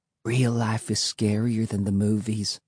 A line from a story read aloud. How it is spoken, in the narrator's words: she said, lowering her voice to a whisper